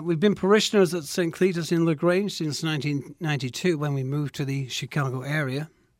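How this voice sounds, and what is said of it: Slight Manchester English accent. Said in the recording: “Manchester, England ... There's a little accent ... Yes, there is a little accent”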